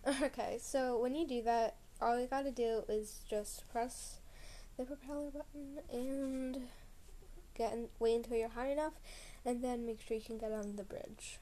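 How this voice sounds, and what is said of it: Tired-sounding voice. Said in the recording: “I sound tired. I'm a bit tired. That's, yeah, I'm just a bit tired”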